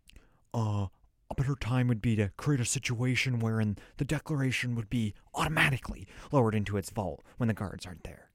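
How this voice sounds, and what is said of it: Imitates another person's voice. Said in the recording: “This is an actual impression of what Justin Bartha sounds like.”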